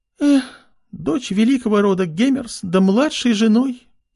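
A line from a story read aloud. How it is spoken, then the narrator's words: Sad sigh. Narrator (Russian): Пирис грустно вздохнула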